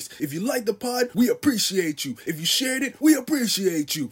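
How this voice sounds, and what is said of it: Exaggerated annoying radio announcer voice. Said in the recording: “his most annoying radio voice.”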